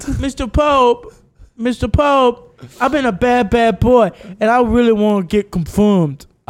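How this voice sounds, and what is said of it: Childlike baby voice. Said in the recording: “our voices adults, but that still have the baby accent”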